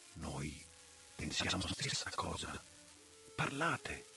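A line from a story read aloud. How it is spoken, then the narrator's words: Whispered. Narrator (Italian): Van Helsing mi ha sussurrato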